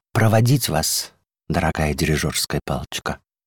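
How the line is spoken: Quiet question. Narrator (Russian): первая скрипка, которая одна отважилась нарушить молчание, тихонько спросила

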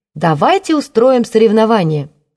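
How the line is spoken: Loud suggestion. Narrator (Russian): громко предложила Ева

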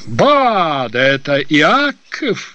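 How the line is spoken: Exclaiming. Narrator (Russian): воскликнул Балантре

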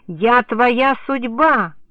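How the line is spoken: Yelling. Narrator (Russian): орал мне Полянский

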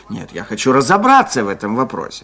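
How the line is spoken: Angry. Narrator (Russian): сердито сказал он

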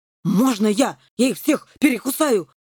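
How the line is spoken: Pleading howl. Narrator (Russian): просительно взвыл генерал Грам

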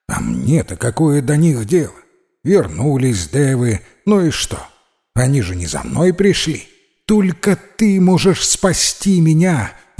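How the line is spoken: Exclaiming young woman. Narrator (Russian): воскликнула девушка

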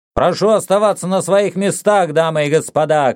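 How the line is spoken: Shouting to an audience. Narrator (Russian): крикнул Сокс публике

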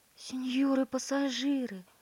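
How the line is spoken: Pleading. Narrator (Russian): взмолилась Перлина

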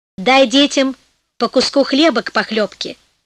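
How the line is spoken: Plain, old man. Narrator (Russian): сказал старик

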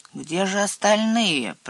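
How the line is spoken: Grumbling. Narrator (Russian): проворчал сеф Ворчун

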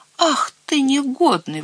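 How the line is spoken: Exclamation. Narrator (Russian): воскликнул Цвотель

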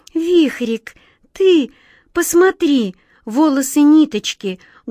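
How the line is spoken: Sorrowful exclamation. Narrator (Russian): горестно воскликнула глазастик

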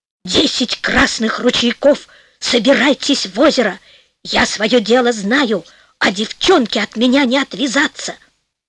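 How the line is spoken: Creaky muttering. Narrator (Russian): бормочет скрипучим голосом

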